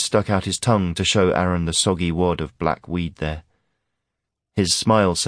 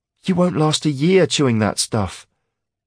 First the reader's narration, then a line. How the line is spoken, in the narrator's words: Aaron was pleading now